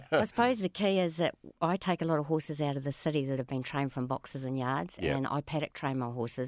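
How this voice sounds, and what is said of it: New Zealand accent. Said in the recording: “I'm picking up a Kiwi twang there from you”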